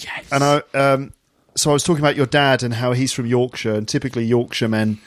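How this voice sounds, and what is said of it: Usual voice. Nothing is said of it.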